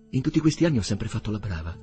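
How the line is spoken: Low, almost whispered. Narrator (Italian): disse lei, con una voce così bassa che era quasi un sussurro

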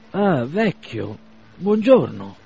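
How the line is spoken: Exclaimed. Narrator (Italian): esclamò Bazarov

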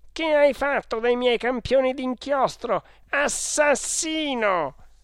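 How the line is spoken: Shouting. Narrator (Italian): ha gridato

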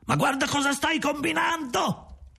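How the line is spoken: Shouted. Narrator (Italian): gridate

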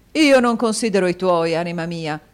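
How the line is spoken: Exclaimed. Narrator (Italian): esclamò il signor Mantalini

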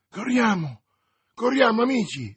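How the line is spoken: Exclaiming. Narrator (Italian): esclamò D'Artagnan

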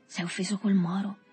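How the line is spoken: Under the breath. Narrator (Italian): disse sottovoce

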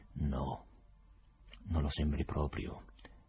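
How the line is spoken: Subdued reply. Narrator (Italian): rispose con voce sommessa il procuratore

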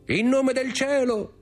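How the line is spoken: Shout. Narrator (Italian): gridò Dantes

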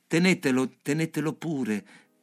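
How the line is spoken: Exclamation. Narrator (Italian): esclamai

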